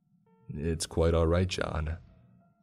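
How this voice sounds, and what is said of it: Flat monotone character voice. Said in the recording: “in that same monotone voice.”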